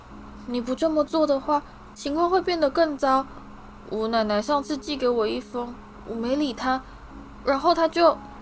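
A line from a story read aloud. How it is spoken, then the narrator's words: Sighing. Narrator (Chinese): 他叹了一口气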